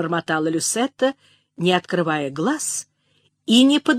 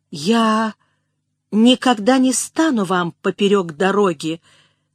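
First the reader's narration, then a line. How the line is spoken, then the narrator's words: Stammering, suppressed emotion. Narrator (Russian): запинаясь, проговорила Элизабет, с величайшим трудом сдерживая волнение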